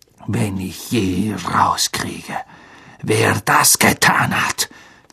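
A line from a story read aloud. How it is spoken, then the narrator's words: Hissed. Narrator (German): zischte Snape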